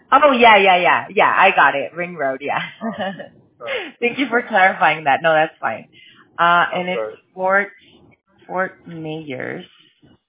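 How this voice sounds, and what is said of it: Mexican Spanish accent. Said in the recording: “My accent. It gives me away sometimes ... I'm Mexican”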